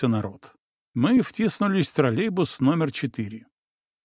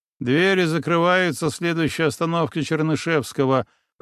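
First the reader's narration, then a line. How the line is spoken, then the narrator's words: Grumbling over microphone. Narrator (Russian): пробурчал водитель в микрофон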